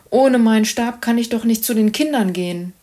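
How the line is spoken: Sighing. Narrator (German): seufzte

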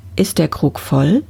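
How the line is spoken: Plain. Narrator (German): fragte er

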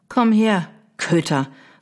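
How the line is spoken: Calling out sternly. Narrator (German): rief sie streng

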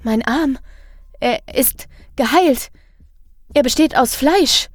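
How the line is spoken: Stammered. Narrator (German): stammelt sie

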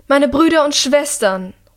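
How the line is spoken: Calling out. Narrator (German): ruft die Regentin

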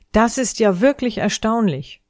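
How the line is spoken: Exclaiming. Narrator (German): sie rief aus

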